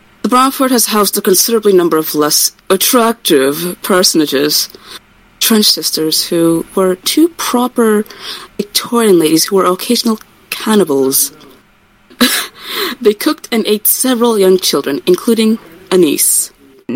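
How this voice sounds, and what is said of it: Put-on English accent. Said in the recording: “My offensive English Hutch accent.”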